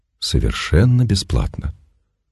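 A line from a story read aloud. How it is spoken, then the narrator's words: Almost a whisper. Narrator (Russian): Почти шепотом обратился к ней странник и добавил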